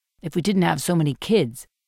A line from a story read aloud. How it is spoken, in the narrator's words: adds quickly